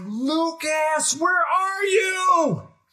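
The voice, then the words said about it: Yelling. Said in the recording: “I'm yelling”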